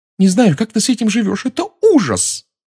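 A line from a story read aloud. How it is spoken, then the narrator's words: Blurted out. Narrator (Russian): выпалила она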